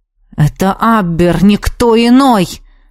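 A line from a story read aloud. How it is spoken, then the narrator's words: Hissed through teeth. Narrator (Russian): сквозь зубы прошипел магистр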